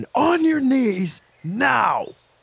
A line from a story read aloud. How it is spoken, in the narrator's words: he barks once again